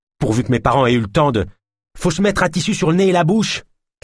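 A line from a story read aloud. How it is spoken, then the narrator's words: Shouted. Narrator (French): cria Naya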